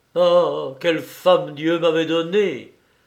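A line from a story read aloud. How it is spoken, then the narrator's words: Exclaimed. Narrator (French): s'écria-t-il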